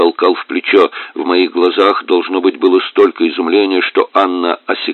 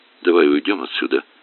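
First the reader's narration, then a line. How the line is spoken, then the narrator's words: Whisper. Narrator (Russian): прошептала она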